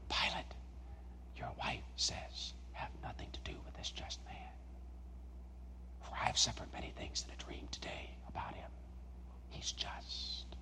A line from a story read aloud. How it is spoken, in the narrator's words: an aide whisper into Pilate's ear